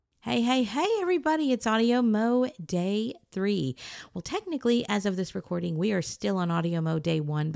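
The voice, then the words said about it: Slightly hoarse voice. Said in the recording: “My throat's a little bit hoarse. I've been talking quite a bit today”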